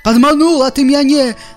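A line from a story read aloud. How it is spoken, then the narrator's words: Angry monster roar. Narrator (Belarusian): зароў страшыдла угневана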